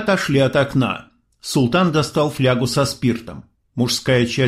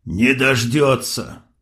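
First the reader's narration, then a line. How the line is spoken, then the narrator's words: Gruff mutter. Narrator (Russian): буркнул бригадир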